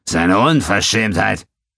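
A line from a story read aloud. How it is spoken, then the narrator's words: Barked. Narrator (German): bellte Turak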